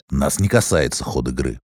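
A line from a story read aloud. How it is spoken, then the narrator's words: Rude interruption. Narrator (Russian): перебил Слэш грубо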